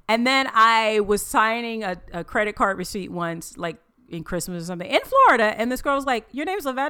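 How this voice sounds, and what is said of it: Southern American accent. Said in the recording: “because of my southern accent”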